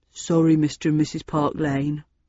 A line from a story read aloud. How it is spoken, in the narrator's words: hung his head and mumbled